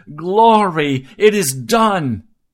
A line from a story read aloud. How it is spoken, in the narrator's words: shouted as loud as I could